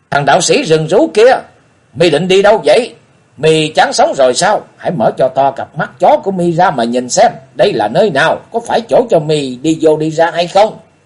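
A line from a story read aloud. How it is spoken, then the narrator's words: Loud abusive cursing. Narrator (Vietnamese): lớn tiếng chửi mắng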